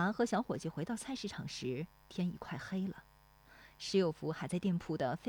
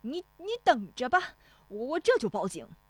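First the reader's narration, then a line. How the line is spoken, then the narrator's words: Shouting. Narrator (Chinese): 冯屋子嚷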